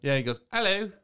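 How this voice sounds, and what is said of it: Good put-on British accent. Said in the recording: “That was a really good British accent. You're getting better at that.”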